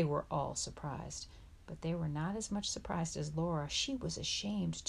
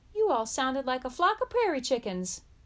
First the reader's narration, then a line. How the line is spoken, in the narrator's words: suddenly, without meaning to, called out